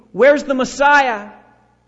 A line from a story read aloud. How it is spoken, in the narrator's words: He may be even shouting